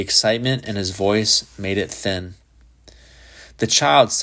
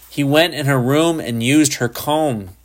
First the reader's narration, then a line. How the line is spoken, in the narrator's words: he screamed